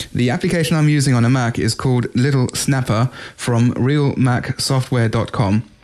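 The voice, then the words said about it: British accent. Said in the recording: “all the way over from the UK ... I love the accent.”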